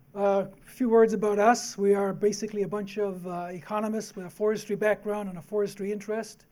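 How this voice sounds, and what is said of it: Slightly hoarse voice. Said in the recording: “I'm also battling a bit of a hoarseness”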